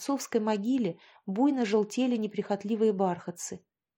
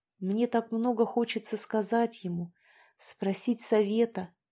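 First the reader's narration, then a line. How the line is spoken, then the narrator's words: Quiet, tearful. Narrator (Russian): тихо говорил Алексей, пытаясь незаметно смахнуть набежавшую слезу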